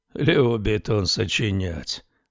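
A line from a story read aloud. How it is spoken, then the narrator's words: Tired, angry. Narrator (Russian): устало и сердито проговорил полуночник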